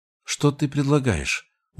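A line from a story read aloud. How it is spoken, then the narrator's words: Tired question. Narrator (Russian): устало спросила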